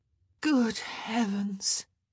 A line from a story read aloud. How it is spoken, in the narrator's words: she moaned